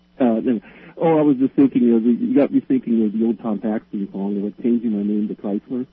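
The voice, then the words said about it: Accent hard to understand. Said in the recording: “I may have a little trouble understanding your accent. ... It's an Ohio accent, but that's I've only been in Sweden 25 years, so maybe I'm adopting.”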